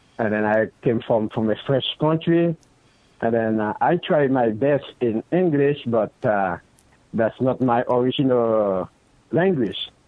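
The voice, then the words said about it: Non-native English accent. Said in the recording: “I'm not really good on English because I got accent.”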